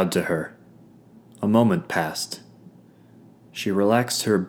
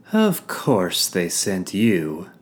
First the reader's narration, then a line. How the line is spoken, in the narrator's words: she drawled